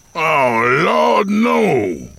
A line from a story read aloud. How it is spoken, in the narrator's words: Earl moaned